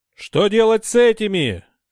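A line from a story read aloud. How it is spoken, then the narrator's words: Shouted from below. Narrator (Russian): крикнули снизу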